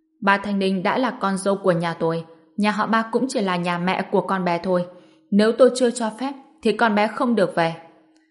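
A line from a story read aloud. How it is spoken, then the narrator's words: Bursting into laughter. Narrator (Vietnamese): Chủ nhà họ Dương cười phá lên nói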